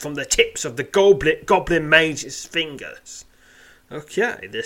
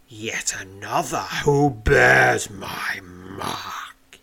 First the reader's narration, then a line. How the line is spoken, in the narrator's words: he snarls